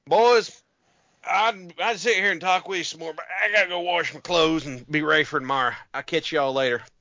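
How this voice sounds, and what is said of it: Put-on Appalachian accent. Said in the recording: “the Appalachian accent is the closest accent that exists to what they spoke in Independence Hall ... George Washington might have been like”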